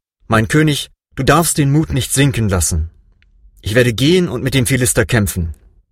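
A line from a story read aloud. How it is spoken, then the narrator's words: Calm. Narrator (German): David sagte ruhig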